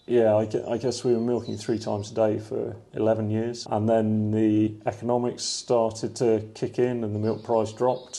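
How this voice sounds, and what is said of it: Non-Leicestershire, Exmoor-raised English accent. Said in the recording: “You don't have a Leicestershire accent. Where have you come from? ... I was brought up on Exmoor.”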